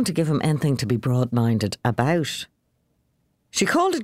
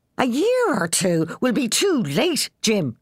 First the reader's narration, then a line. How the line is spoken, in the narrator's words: cried Moll